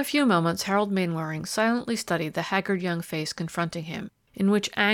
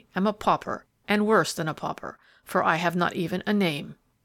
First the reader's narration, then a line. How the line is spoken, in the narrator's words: he added bitterly